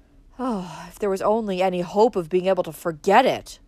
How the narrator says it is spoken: said Valancy wearily

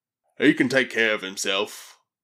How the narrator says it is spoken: growled Throck

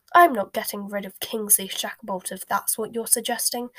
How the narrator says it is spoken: said the Prime Minister hotly

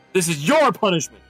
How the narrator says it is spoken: shouted her father

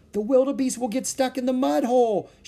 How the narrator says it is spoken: she cried

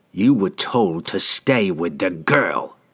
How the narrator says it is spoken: hissed

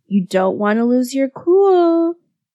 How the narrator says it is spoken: Karu chuckled

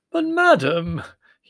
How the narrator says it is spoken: he wailed in genuine anguish

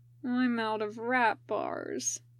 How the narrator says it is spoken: Ryoma said mournfully

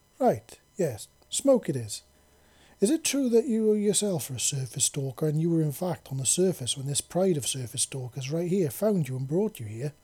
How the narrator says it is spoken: they asked

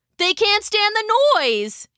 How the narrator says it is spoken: he shouted at Lydia

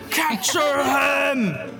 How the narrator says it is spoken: He screams

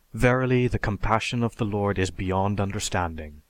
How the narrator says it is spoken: Again, the Martian murmurs

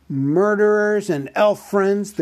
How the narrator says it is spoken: the great goblin shouted

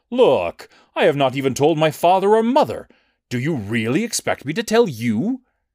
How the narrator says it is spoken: She cried on his shoulder

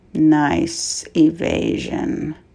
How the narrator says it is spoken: murmured Scorch calmly

